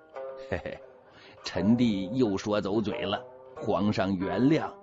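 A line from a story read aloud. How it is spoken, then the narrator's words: Cheeky grinning. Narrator (Chinese): 他 嬉皮笑脸的说了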